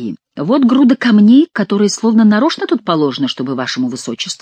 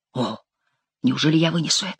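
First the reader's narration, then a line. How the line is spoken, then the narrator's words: Whispering. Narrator (Russian): шептал он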